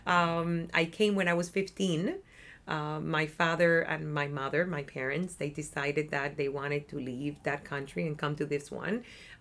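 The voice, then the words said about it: Cuban Spanish accent. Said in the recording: “if you haven't figured that out because of my accent, I was born and raised in Cuba”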